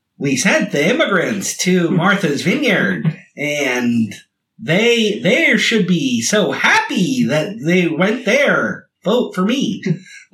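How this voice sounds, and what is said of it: High, sing-songy, lispy politician impression. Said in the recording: “bad impression of Hillary Clinton and a bad impression of Ron DeSantis... he's the high voice... It's got like a sing songy thing, and he's kind of got like a lispy thing”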